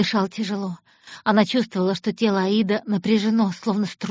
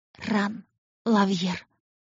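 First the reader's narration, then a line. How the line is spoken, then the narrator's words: Breathed out. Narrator (Russian): выдохнула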